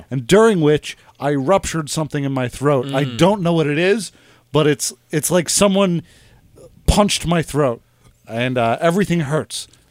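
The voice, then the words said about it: Congested, slightly off voice. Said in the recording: “You might notice the timbre of my voice is a bit off... Not only am I congested”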